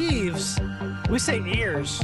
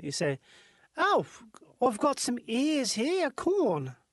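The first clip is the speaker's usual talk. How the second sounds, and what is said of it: Imitated New Zealand accent. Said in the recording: “This is how you say something with a New Zealand accent.”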